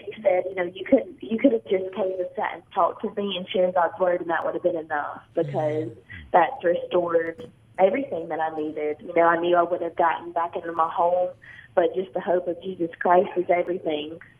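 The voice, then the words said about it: Slight accent. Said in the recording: “she has a little of an accent”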